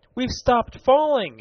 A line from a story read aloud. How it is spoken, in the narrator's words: he cried